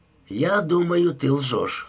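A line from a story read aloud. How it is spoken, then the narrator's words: Plain. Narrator (Russian): сказал он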